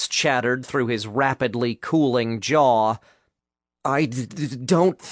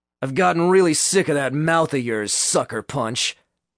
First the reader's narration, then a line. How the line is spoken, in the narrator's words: Michael sneered